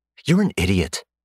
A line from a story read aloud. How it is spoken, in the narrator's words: she snapped